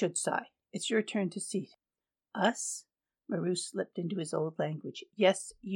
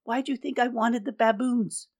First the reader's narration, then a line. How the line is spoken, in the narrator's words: Maru sighed